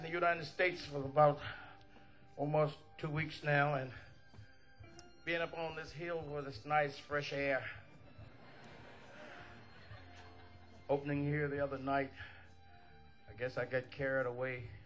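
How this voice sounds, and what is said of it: Hoarse, strained voice. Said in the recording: “my throat is bad tonight. I have a case of laryngitis. I'm a bit hoarse.”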